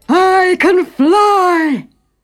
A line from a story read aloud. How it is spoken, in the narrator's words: cried